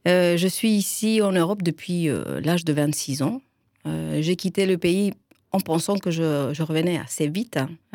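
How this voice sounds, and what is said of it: Chilean accent in French. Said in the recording (French): “Moi je suis chilienne... Je ne sais pas si l'accent est très facilement reconnaissable”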